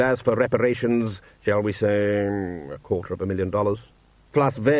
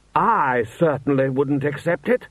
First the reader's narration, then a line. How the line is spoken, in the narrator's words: Rust shouted